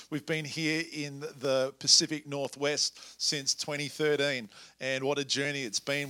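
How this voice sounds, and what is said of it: Australian accent. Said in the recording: “As you can tell from my accent, I'm from a little south of South Salem... Perth, Australia”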